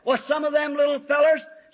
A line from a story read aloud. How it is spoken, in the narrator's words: she hollers